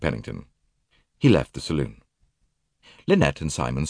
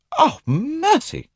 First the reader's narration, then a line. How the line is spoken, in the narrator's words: cried Lynette